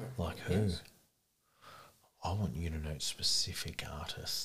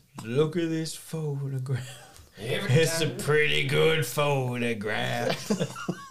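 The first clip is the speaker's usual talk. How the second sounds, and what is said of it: Country twang, sung. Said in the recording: “I like your country twang. I'd listen to your country music.”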